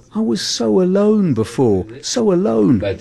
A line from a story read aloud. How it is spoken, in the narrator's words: Paul-Edouard exclaims